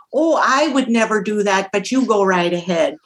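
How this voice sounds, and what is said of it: Put-on Minnesota accent. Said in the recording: “here comes the accent again”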